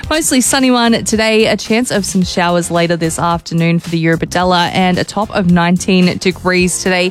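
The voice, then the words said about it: Hoarse, nearly lost voice. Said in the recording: “Sorry about that, lost my voice.”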